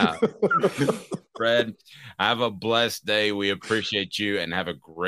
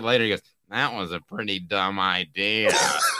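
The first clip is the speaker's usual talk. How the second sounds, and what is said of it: Imitates another person's voice. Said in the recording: “spot on impersonation of John.”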